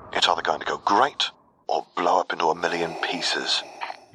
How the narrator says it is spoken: he predicted quietly

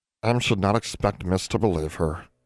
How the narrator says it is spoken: Em sighed

